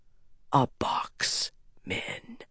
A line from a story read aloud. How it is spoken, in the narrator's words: Rand whispered